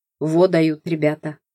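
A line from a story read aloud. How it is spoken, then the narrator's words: Grumbled mutter. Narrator (Russian): буркнула я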